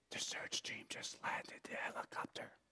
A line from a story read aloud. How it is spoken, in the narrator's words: Now alarmed, in awe, in this awe whispered voice, the child answered